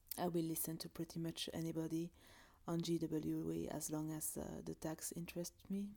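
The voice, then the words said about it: French accent. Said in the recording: “I love the French accent”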